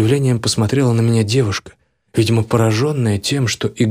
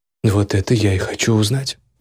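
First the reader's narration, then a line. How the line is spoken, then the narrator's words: Calm. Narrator (Russian): спокойно произнес я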